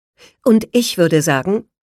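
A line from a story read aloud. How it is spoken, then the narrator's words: Sharp retort. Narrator (German): konterte er scharf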